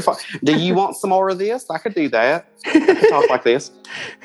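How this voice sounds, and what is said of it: Exaggerated regional accent. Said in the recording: “I expected you to have a lot more accent. ... That's how my sister talks.”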